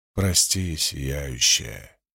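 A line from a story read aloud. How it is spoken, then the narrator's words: Quiet speech. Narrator (Russian): тихо проговорил он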